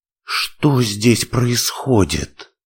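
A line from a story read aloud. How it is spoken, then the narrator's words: Shocked breathless exhale. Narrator (Russian): выдохнула, когда увидела вдалеке огромную фигуру великана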